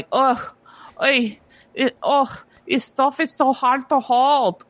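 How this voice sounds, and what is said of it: Put-on German accent. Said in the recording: “That's your German impression? ... That's my German impression.”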